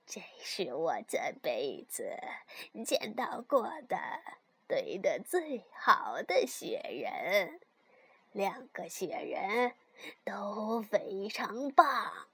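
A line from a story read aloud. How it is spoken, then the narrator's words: Smiling. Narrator (Chinese): 他才微笑着说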